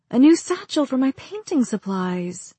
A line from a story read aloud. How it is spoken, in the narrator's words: I breathed